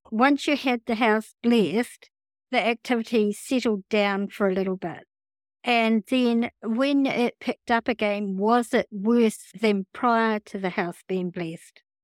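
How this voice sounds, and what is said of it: Speaks with a noticeable accent. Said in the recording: “that's my accent.”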